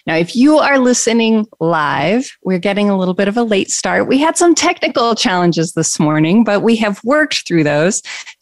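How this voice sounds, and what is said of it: Congested, stuffy voice. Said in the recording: “You may also notice my voice sounds a little peculiar as well this week. I'm a little congested ... I got a little bit of congestion.”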